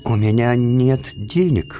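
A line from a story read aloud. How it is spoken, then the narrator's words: Halting, stammering. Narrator (Russian): выговорил он, наконец, запинаясь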